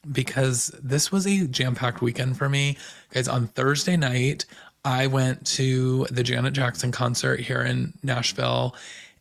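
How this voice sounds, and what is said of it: Slightly hoarse voice. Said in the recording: “I feel like my voice is a little bit hoarse this week.”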